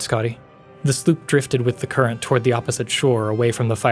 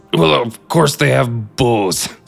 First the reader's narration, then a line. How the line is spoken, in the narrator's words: snarled Captain Balfix